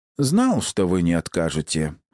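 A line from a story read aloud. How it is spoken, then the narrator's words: Plain. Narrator (Russian): ответил Освальд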